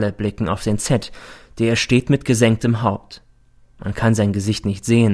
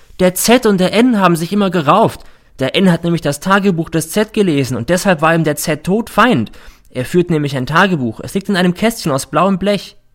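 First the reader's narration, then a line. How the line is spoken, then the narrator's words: Sudden shout. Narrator (German): schreit plötzlich der R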